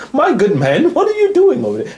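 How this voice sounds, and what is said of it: Put-on snooty British accent. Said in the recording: “with your nose stuck up in the air now putting on a little British accent.”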